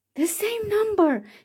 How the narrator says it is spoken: shouted Cinderella

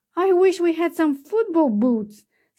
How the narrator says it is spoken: sighed Cinderella

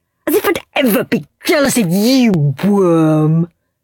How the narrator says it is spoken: sneered Henry

